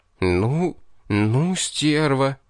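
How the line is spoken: Choked, indignant exhale. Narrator (Russian): Выдохнул, когда смог справиться со своим горлом, дыхание перехватило от негодования

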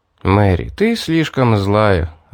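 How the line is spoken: Sighing. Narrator (Russian): вздохнул я

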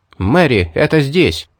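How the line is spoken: Shout. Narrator (Russian): крикнул

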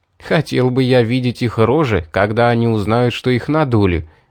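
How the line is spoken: Laughing. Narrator (Russian): рассмеялся

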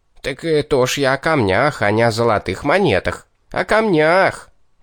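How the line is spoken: Near-howl, wild voice. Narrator (Russian): едва не взвыл дурным голосом бес

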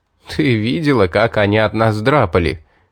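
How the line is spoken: Laughing question. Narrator (Russian): смеясь спросил

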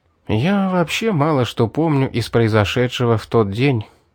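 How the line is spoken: Sighing admission. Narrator (Russian): вздохнув, признался я

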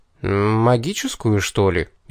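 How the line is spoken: Uncertain guess. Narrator (Russian): неуверенно предположил

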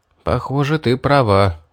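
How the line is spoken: Sighing. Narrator (Russian): вздохнул я

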